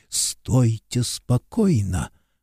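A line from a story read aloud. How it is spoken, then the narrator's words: Clipped whispered order. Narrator (Russian): отрывистым шепотом приказал он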